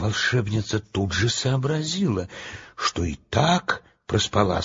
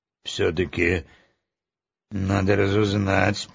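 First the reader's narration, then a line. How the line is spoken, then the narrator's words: Grumbled. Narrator (Russian): пробурчала она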